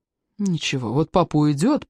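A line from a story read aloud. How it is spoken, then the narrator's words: Threatening. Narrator (Russian): пригрозил ему Жан-А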